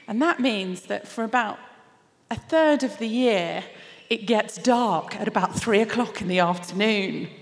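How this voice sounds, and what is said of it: English accent. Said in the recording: “As you can tell from my accent and from the introduction, I live in England.”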